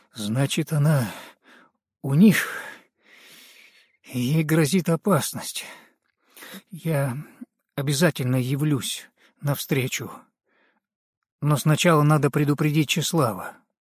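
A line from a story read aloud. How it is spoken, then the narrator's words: Feigned fear, trembling voice. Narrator (Russian): изобразил на лице испуг и дрожащим голосом сказал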